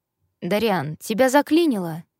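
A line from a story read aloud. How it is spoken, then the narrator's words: Bored, clarifying. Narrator (Russian): Скучающим тоном уточнила Эрика Магни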